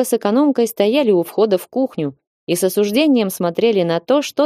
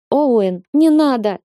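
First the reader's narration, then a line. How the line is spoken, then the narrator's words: Almost sobbing. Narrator (Russian): Молли почти рыдала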